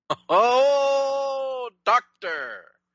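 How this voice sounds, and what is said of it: Keith Jackson sportscaster impression. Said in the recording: “Is that your Keith Jackson impression?”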